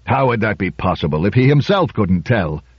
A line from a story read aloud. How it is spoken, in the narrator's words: growled Trumbull